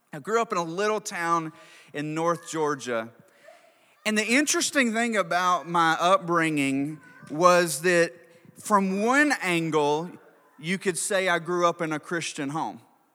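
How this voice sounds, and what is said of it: North Georgia accent with slight twang. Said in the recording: “That's where this accent comes from... there's a little twang there”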